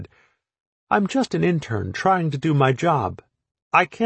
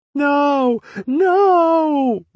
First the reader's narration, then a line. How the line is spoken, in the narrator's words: wailed Putzel